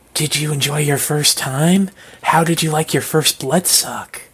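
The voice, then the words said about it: Sultry, breathy ASMR-like character voice. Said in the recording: “That was downright erotic... That was a great impression... Get some ASMR here.”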